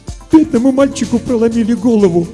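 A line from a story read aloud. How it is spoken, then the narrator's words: Sobbing. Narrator (Russian): всхлипнула Варвара Алексеевна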